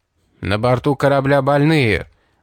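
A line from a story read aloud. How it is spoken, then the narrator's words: Booming voice. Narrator (Russian): прогремел голос Хована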